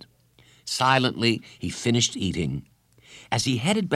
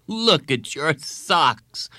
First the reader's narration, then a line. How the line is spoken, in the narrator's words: she laughed